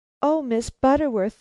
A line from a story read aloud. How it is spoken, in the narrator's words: cried